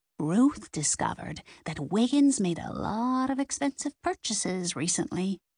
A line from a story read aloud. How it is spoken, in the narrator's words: whispered